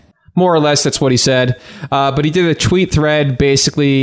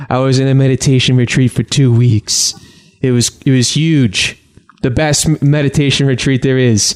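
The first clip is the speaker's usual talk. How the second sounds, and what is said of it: Imitates another person's voice. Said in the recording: “I don't know why I'm doing a Donald Trump voice.”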